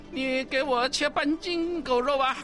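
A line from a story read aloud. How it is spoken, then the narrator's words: Laughing. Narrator (Chinese): 济公笑着说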